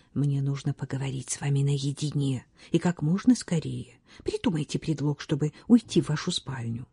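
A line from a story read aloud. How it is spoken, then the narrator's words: Whisper. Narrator (Russian): Рене де ла Прованс прошептала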